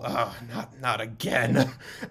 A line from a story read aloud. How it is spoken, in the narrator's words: another man, slightly younger, you kind of hear him grumble